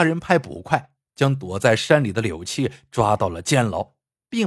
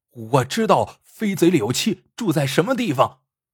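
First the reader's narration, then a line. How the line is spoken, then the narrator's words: Loud resentful shout. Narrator (Chinese): 邱斌恨柳七害他，他扯开嗓子大叫道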